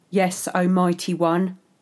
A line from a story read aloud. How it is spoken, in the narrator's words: I intoned